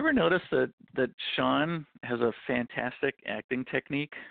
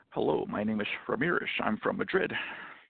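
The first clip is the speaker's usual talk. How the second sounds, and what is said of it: Imitates another person's voice. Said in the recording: “Every movie, same accent ... Let me practice my accent.”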